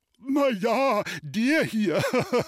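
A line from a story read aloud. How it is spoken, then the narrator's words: Giggling seller. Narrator (German): kicherte der Verkäufer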